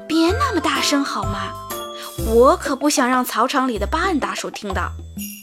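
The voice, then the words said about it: Low, hushed voice. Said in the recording (Chinese): “小牛米娅低声说”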